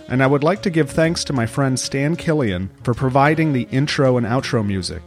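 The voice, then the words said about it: Stuffed-up, congested voice. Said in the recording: “apologize for my voice. ... The Austin allergy and cold season is in full effect, so I do sound a bit stuffed up now and in the interview.”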